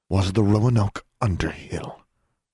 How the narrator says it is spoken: Miss Grimm said through clenched teeth

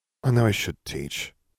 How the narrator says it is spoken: Neville muttered

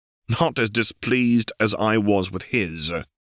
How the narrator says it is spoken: Harry returned irritably

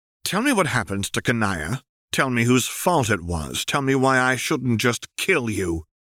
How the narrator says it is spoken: she demanded harshly

